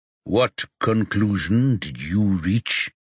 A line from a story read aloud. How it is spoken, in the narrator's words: Rocky says in a dark voice